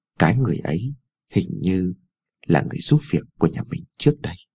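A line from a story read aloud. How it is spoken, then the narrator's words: Mumbling softly. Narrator (Vietnamese): Cô còn lí nhí nói thêm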